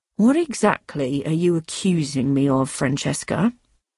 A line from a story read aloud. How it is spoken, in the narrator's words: Doug asked quietly